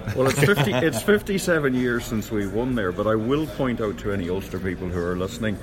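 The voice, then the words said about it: Irish accent from Connacht. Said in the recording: “by my accent, is my part of the world, Connacht”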